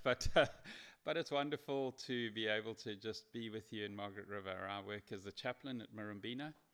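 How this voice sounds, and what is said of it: Noticeable foreign accent. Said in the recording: “I've got a funny accent. I come from this place originally.”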